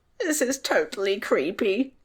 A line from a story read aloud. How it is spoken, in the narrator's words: Tom squeaked, his voice trembling